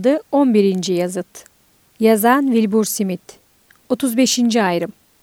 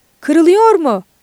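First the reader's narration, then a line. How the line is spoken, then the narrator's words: Shouted. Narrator (Turkish): diye bağırdı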